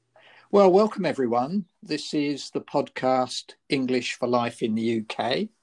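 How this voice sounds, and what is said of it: Slightly croaky voice. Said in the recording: “I've had a heavy cold ... my voice might be a little bit croaky today”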